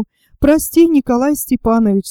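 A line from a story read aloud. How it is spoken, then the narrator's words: Trembling voice. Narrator (Russian): сказала она дрогнувшим голосом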